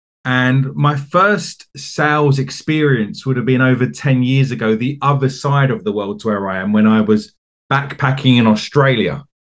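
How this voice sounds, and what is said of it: English accent from Essex. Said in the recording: “as you might be able to tell from my accent, I'm from the UK. I'm from a county called Essex, which is just outside of London”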